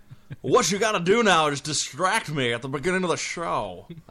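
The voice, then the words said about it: Bad impression of a radio host. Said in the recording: “That sounds like Wile E. Dog's voice from An American Tale, 50 Goes West. ... some kind of bad Don Imus impression.”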